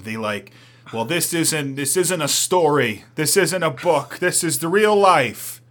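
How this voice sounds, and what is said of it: Unidentified put-on accent. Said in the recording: “What was that accent?”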